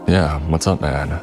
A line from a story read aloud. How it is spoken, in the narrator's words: barely perceptible sigh